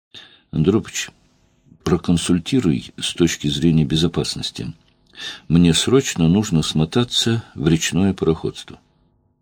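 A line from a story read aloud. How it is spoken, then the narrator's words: Neutral tone. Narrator (Russian): Петр нейтральным тоном сказал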